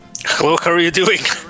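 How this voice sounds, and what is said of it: Deliberately bad put-on Mexican accent. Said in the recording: “people know that's not how you speak ... that is the worst Mexican accent from a Mexican ever ... as a joke, I start off with a like really bad Mexican accent”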